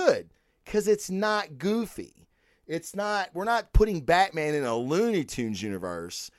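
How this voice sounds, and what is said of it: Usual voice. Nothing is said of it.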